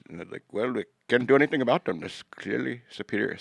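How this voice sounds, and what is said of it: Put-on Indian accent. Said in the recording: “my racist Indian accent”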